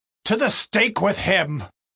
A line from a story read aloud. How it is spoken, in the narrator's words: Still, they kept shouting out all the more